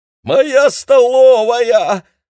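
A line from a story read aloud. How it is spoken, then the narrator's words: Screaming. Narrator (Russian): завопила Мэйли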